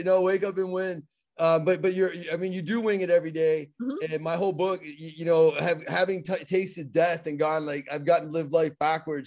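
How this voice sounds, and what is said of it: Pittsburgh accent. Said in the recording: “I have my Pittsburgh accent.”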